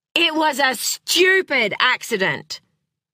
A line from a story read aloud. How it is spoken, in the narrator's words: he roared